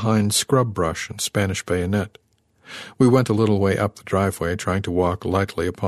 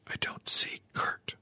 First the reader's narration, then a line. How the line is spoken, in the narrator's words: I whispered